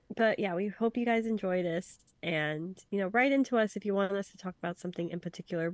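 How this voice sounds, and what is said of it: Sick, congested voice. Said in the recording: “my very sickly sexy voice”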